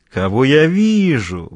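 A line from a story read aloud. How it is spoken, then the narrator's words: Smirking exclamation. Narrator (Russian): воскликнул незнакомец, ухмыляясь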